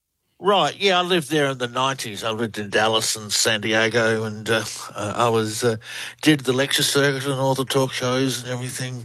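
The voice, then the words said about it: Australian accent. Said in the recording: “Australian researcher. Love the accent. ... You all have the accent, and we love it. ... You do. You have a great one.”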